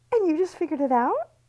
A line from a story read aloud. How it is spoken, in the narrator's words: Libby piped in